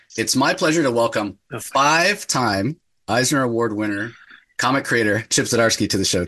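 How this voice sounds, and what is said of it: Voice sounds like a cold. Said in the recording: “you probably hear it in my voice, a little bit of a cold”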